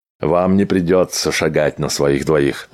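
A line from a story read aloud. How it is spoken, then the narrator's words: Plain. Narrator (Russian): ответил Кихот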